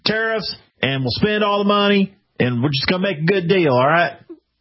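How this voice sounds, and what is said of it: Donald Trump impression, Southern-tinged. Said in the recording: “That's a great Trump impersonation. Sounds ... just like him ... It's the Tennessee ... That's one of the better ones I've heard ... It's the Tennessee version of him”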